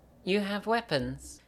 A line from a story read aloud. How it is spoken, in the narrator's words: Eleanor quietly asks Gemma